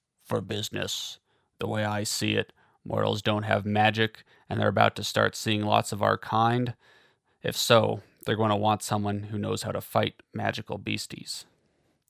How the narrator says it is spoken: Cole said in a gruff voice

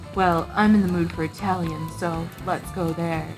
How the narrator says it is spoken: Edward said in a low, sexy voice

